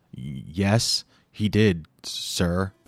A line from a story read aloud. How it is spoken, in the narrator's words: she stuttered